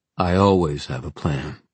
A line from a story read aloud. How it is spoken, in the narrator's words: said Julian calmly